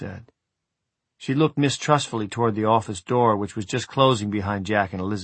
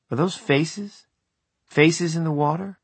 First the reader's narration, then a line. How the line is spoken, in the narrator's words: she said hesitantly